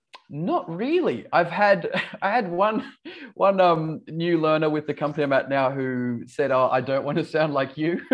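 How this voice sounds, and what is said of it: Light Australian accent, slightly English. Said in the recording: “I've sort of lost my Australian accent over the years ... friends in the UK that say I sound Australian, and my Australian friends say I sound English ... your Australian accent isn't very heavy ... with some words where it sounds English”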